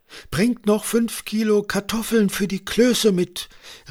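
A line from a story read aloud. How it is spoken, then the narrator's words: Called after them. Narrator (German): rief Sophie den beiden hinterher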